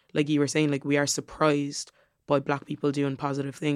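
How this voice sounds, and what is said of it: Waterford Irish accent. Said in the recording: “Is that, a Waterford surprised thing? Surprised. ... My accent shifts”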